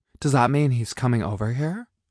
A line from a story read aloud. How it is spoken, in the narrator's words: Nicole said weakly